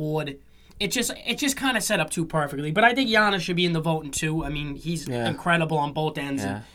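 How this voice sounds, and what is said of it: Usual voice. Nothing is said of it.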